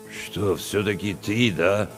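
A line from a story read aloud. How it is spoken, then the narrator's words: Confused mutter. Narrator (Russian): Растерянно пробурчал Чевчаридзе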